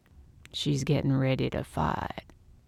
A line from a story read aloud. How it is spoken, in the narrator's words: Tom said in a low voice